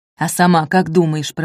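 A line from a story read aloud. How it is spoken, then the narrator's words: Grumbled. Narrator (Russian): проворчали ей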